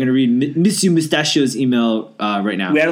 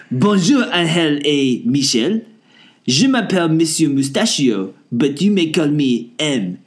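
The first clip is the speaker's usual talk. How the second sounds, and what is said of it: Fake French accent. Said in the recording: “please read my emails with the accent you expected I would have ... who had the better French, fake French accent, and ... won hands”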